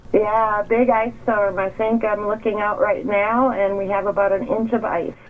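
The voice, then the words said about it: Accent with a twang. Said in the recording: “You picked up a twang in that accent of yours”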